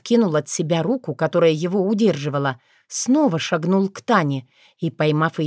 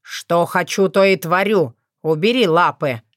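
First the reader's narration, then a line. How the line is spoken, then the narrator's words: Snapping retort. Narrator (Russian): огрызнулся Хорш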